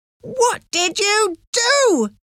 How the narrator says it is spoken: She shouted

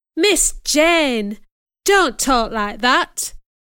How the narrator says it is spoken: exclaimed

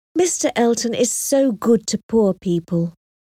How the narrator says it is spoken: She kept sighing and saying

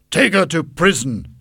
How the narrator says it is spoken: shouted the king

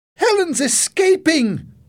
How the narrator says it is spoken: Jenny shouted

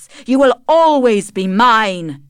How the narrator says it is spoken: he shouted

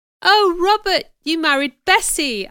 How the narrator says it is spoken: I cried

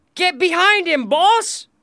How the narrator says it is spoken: shouted another

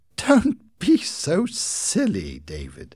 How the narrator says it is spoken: laughed

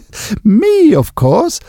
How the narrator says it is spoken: laughed Epi

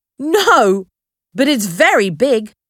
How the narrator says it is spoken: Dan laughed

